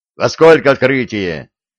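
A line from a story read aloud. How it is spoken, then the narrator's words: Barking. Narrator (Russian): рявкнул он на перепуганного посла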